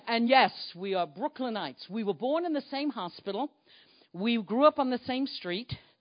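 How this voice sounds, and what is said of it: Brooklyn New York accent. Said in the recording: “we're from Brooklyn, New York. Could any of you hear the Brooklyn accent?”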